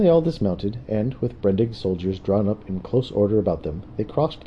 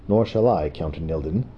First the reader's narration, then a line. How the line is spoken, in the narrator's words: Brendig replied